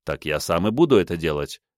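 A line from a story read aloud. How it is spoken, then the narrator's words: Wry snort. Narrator (Russian): хмыкнул я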